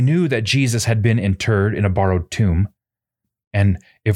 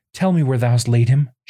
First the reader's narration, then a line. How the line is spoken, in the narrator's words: she pleaded